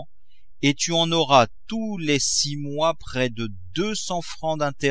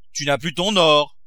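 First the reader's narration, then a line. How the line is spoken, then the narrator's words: Exclaimed. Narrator (French): s'écria Grandet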